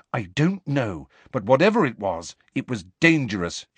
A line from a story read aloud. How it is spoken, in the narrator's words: she said firmly